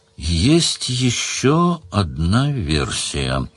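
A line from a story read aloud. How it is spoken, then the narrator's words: Slow. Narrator (Russian): сказал Сварог медленно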